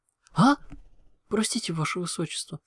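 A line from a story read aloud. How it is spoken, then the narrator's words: Frightened exclamation, little dragon. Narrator (Russian): испуганно воскликнул дракончик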